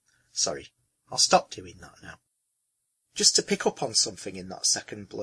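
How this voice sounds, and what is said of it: Usual voice. Nothing is said of it.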